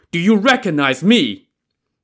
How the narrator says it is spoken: roaring

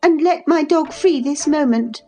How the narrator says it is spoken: she exclaimed

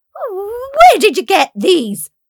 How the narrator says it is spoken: barked stepmother

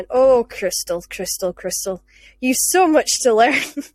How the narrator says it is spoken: she just sighed and she went

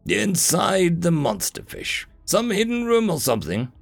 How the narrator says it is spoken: Azar grunted as he stood up

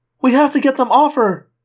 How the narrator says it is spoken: Cassie cried

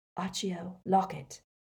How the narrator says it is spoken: he murmured

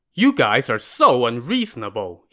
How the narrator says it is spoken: he said angrily

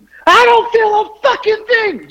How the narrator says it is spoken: Just screaming

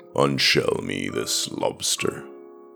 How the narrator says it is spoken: said Guillaume in his deep, lazy voice

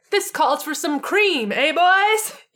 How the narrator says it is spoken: He yelled out

